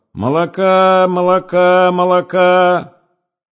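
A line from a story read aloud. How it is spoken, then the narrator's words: Villager's strange-voiced shout. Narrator (Russian): деревенский мужик и странным голосом кричал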